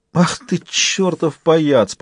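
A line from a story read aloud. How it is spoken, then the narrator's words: Groaning. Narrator (Russian): простонал Джек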